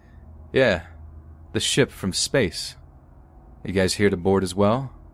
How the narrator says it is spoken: The man again in his confident voice said

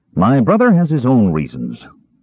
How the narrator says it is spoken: Caramon said curtly

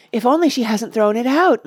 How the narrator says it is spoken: moaned

